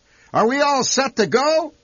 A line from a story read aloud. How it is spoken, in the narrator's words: he shouted